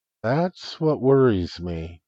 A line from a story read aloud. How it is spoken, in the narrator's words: replied gently